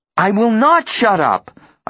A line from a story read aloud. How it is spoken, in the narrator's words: I say, my voice rising